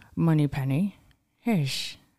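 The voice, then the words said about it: Scottish accent impression of actor. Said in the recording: “Can you do Scottish? Can you give me your best Sean Connery?”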